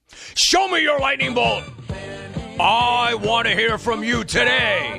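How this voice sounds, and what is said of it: Strained, throat-tearing shouting voice. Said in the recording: “this voice ... it is destroying my esophagus and larynx”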